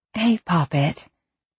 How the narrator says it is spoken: she said quietly

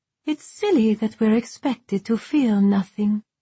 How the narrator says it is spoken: the shadow continued, her tone dulcet once more

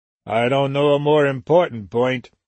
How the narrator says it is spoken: Weldon said dryly

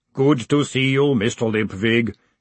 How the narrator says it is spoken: he boomed cheerfully

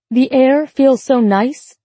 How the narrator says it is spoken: Laura called out to him

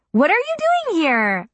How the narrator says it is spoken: I shrieked from behind my hands

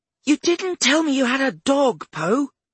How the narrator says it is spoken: she squealed

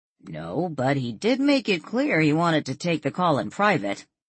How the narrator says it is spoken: Brian chuckled

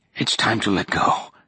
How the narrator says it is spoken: she said, her voice raspy

